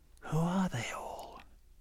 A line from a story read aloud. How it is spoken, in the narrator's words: Anna, a little frightened, whispered in his ear